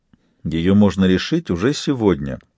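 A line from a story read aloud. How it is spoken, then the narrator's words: Calm. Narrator (Russian): спокойно сказал барон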